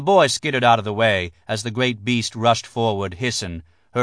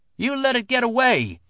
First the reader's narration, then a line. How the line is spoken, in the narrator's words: the boy shouted